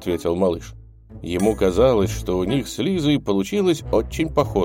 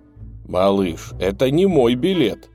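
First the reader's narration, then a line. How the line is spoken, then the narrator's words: Father's exclamation. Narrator (Russian): воскликнул папа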